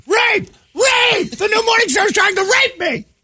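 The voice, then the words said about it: Shouting. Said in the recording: “I'm shouting”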